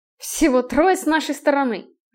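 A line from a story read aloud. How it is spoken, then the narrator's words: Irritated. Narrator (Russian): раздраженно закатил глаза Стерлинг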